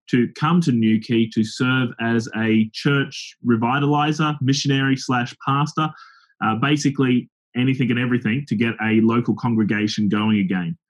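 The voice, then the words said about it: Australian accent. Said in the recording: “as the accent gives it away, I'm not originally from Cornwall. I'm not from England at all. I'm an Aussie”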